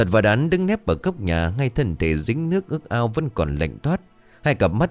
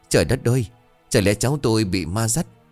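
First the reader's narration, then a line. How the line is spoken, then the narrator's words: Trembling old woman. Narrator (Vietnamese): Bà Sỉu run rẩy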